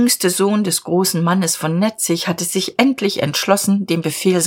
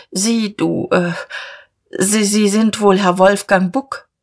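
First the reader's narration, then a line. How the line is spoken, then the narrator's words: Stammering. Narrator (German): stammelte Diederich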